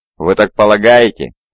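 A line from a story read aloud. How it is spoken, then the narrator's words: Mocking. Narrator (Russian): насмешливо скривился Шарк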